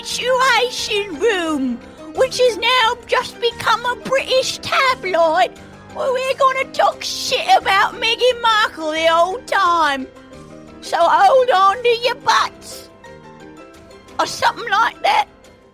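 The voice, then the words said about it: Mixed New Zealand-Cockney put-on accent. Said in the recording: “I'm going to talk in this accent the whole night. It's gonna go between a New Zealand and Cockney meets, all of the Monty Python characters.”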